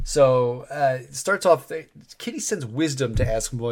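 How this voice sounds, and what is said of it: Usual voice. Nothing is said of it.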